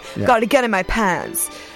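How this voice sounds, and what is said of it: Put-on accent. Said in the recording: “Great accent. ... That was good. I like that.”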